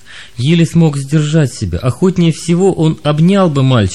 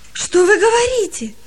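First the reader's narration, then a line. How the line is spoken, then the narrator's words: Joyful astonished exclamation. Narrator (Russian): радостно воскликнул пораженный Палка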